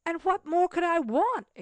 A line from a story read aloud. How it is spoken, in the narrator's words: exclaimed Cecil with animation